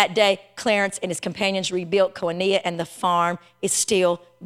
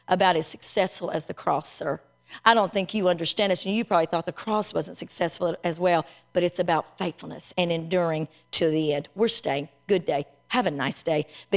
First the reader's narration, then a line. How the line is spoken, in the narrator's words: Clarence said quietly but firmly